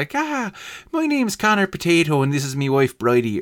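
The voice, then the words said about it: Terrible put-on Irish accent. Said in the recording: “a terrible Irish accent”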